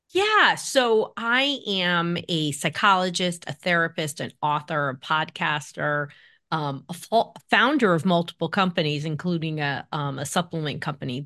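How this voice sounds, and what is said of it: East Coast American accent. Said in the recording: “Your accent suggests that you're an East Coast gal”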